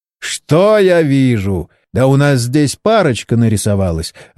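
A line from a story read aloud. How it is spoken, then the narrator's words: Bursting out laughing. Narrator (Russian): расхохотался Борис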